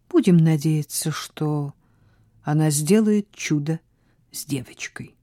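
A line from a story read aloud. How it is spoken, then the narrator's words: Quiet reply. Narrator (Russian): тихо ответила Сара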